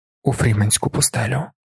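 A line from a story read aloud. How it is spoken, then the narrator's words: Whisper. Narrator (Ukrainian): прошепотів Пол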